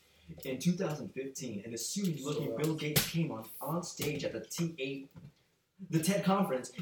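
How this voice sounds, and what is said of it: Narrator-style reading voice. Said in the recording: “I'm about to put my narrator voice.”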